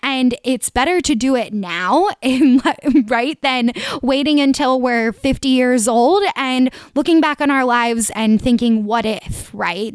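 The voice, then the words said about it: Philadelphia-area Delco accent. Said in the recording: “I'm from the greater Philly area, if you guys couldn't tell from my Delco accent.”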